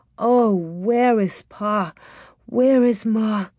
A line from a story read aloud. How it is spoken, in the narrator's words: she thought